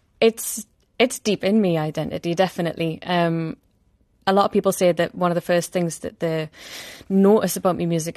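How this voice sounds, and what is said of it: Geordie accent. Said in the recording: “my accent, which comes through ... the Geordie accent”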